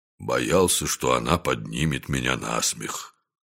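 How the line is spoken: Gloomy mutter. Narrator (Russian): сумрачно пробормотал Дюк

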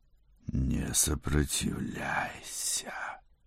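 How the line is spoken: Growled. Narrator (Russian): прорычала Жюльет

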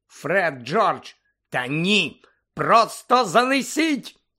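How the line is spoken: Shout. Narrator (Ukrainian): закричала місіс Візлі

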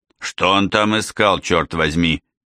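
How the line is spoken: Astonished grumble to self. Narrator (Russian): изумленно проворчал Тедди, обращаясь скорее к себе, чем к агенту Девилу

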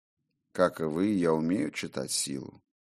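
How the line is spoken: Sad, smiling tone. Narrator (Russian): грустно улыбнулся тот

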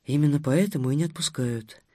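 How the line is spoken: Quiet. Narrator (Russian): негромко сказала Дарья вторая

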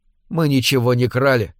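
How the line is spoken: Calm. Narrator (Russian): спокойно ответила она

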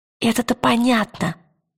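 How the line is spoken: Whisper. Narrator (Russian): прошептала она в ответ

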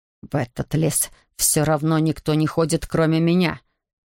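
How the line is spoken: Hiss. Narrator (Russian): прошипел Эндрю

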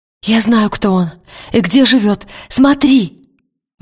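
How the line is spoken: Exclaiming. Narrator (Russian): воскликнула она

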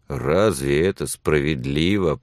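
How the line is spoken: Indignant grumble. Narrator (Russian): проворчал Билли с негодованием

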